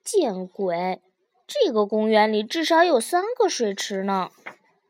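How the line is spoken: Muttering. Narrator (Chinese): 嘟囔道

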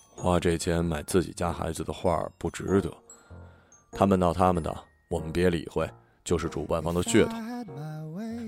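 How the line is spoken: Soft, gentle. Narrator (Chinese): 老公 轻声道

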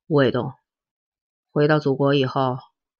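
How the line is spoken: Sighing, slow. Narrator (Chinese): 陈诚叹了一口气，缓缓的说

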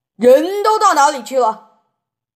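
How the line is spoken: Shouting. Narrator (Chinese): 先生在书房里便大叫起来

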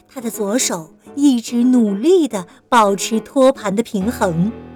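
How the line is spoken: Trembling, low voice. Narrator (Chinese): 小雷蒙打着哆嗦，低声地说

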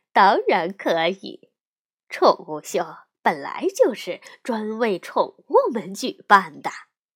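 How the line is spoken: Mother bear, laughing. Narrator (Chinese): 熊妈妈笑着说

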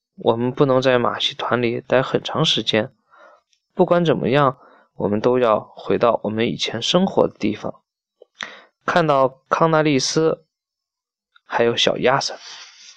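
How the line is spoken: Low voice. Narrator (Chinese): 萨利斯特低声说

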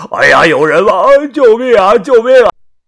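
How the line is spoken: Nonstop shouting. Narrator (Chinese): 他不停的大喊道

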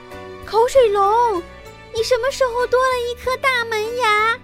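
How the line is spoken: Astonished cries, group. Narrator (Chinese): 一个个吃惊地叫起来

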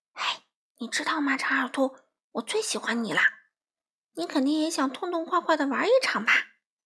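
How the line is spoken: Lowered conspiratorial voice. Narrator (Chinese): 花袜子压低声音说

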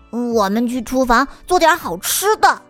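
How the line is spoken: Loud. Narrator (Chinese): 卢卡大声地说

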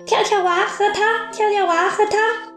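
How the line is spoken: Loud. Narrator (Chinese): 辽哥大声说

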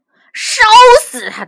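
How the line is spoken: Loud shouting. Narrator (Chinese): 国王的弟弟在那大声叫喊

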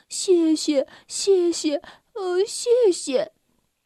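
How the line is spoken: Smiling. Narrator (Chinese): 他好像微笑着说

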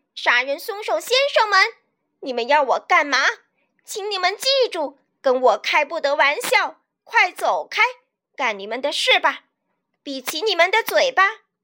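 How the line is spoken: Loud shout. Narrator (Chinese): 我将高声大喊

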